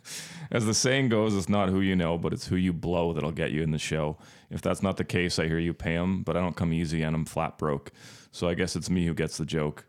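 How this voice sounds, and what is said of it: Announcer voice. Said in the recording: “in my best announcer voice.”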